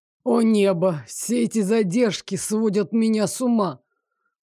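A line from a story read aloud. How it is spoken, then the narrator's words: Groaning. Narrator (Russian): простонал Лоренс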